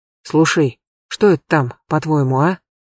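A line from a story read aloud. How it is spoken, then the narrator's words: Quiet. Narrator (Russian): тихо сказал егерь Щеголенко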